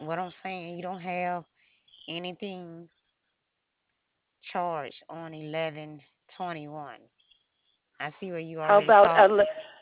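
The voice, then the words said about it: Speaks with a hard-to-understand accent. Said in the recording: “I'm having trouble understanding you through your accent”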